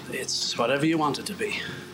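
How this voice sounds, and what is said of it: Generic foreign accent. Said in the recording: “another sample generic foreign accent”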